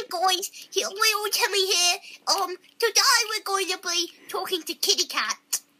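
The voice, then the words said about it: Childlike character voice. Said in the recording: “do the little Timmy voice”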